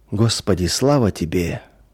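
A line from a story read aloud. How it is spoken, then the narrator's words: Quiet murmuring. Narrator (Russian): тихо приговаривал он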